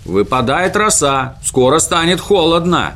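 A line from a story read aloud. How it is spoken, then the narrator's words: Shouted. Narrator (Russian): крикнул Мумитроль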